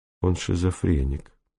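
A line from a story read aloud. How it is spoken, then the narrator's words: Quiet. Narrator (Russian): тихо сказал Панчиков Чичерину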